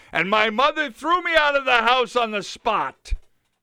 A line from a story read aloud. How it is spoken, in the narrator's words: I cried